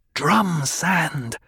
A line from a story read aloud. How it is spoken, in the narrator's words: Jessica hissed